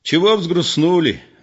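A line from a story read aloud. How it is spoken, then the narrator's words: Cheerful and loud. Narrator (Russian): весело и громко сказал Егор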